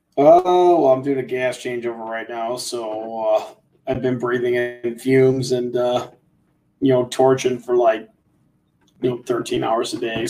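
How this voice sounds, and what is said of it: Rough, hoarse voice. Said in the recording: “You sound a little rough ... I'm a little rough right now. My voice sounds like crap from breathing in all that R22 that was burning off.”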